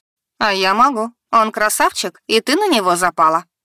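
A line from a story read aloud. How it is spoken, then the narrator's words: Amused snort. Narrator (Russian): хмыкнула Фиона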